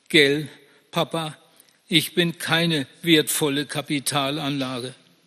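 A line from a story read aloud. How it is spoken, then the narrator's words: Tearful choked male voice. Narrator (German): sagt er mit tränenerstickter Stimme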